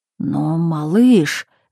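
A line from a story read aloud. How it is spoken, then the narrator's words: Babbling. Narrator (Russian): залепетал он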